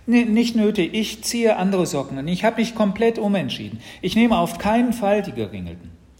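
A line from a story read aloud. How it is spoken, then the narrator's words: Called out. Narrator (German): rief Mats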